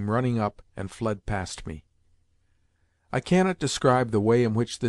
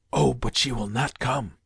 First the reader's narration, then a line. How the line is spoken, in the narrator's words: answered Woloda's voice in a whisper